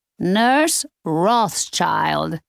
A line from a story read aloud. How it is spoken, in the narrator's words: Alma said in a loud voice